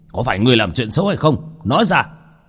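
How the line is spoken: Old men roaring. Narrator (Vietnamese): Hai lão đạo kia … gầm lên một tiếng

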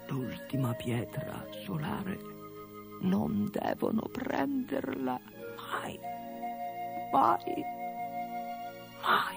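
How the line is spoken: Dragon speaking softly. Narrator (Italian): Il drago disse sottovoce

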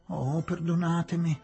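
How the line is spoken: Whimpering. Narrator (Italian): piagnucolava

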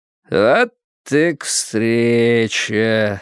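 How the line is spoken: Calm drawl. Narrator (Russian): спокойно протянул Уиттекер

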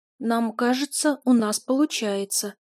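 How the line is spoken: Uncertain. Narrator (Russian): неуверенно предположила Амита

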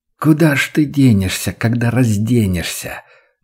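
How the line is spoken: Purring hateful voice. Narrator (Russian): мурлыкал ненавистный голос

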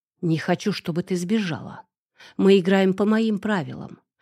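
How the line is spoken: Whisper. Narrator (Russian): прошептал он

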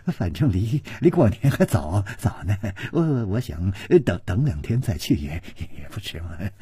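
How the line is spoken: Placating smile. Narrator (Chinese): 陪着笑说

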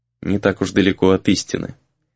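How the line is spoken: Quiet reply. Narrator (Russian): тихо ответил тот

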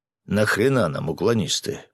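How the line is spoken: Grumbling. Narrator (Russian): проворчал полковник

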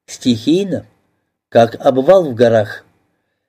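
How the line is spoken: Cheerful laughter. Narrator (Russian): Марина весело засмеялась

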